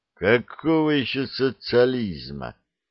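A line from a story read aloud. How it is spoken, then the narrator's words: Contemptuous, through teeth. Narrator (Russian): презрительно процедил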